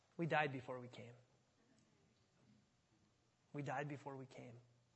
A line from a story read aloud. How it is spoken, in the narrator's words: Calvert calmly replied